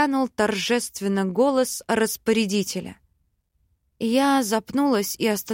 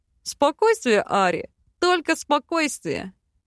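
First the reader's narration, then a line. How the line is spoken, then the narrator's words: Whispered in ear. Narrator (Russian): Голосом Карлсона шепнул в ухо Бальд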